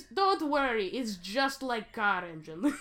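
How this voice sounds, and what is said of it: Mock Russian accent, sounds Transylvanian. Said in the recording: “My Russian accent continues to just come out as Count Chocula ... It's vaguely Transylvanian.”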